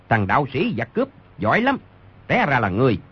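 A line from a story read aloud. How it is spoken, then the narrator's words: Shouted. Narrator (Vietnamese): Người đứng đầu quát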